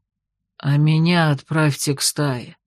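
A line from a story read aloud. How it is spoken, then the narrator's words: Quiet old man pleading. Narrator (Russian): тихо попросил дед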